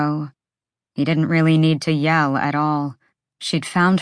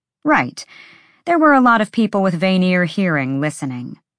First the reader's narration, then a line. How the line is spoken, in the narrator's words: he'd yell at her